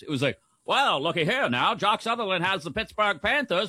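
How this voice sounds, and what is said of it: Old-timey radio announcer voice. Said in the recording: “Do the rest of the show in that voice... Old timey radio voice... nailed it”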